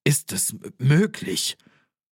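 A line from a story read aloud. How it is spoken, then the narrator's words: Stammering. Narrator (German): stammelte der Bankier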